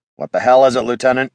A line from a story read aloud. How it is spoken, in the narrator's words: he growled